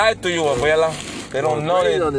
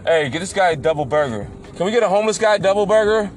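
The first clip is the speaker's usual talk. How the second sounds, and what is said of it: Yelling loudly. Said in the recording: “stop yelling double burger”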